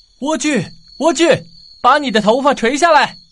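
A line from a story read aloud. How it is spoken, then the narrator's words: Calling up from below. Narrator (Chinese): 王子一如往常的站在塔底喊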